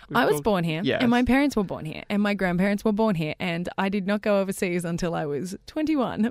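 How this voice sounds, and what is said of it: American-sounding accent. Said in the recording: “you have an accent, right? I'm not crazy. ... Well, we think it's American.”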